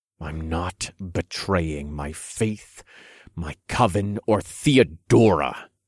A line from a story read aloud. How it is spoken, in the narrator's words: I said through gritted teeth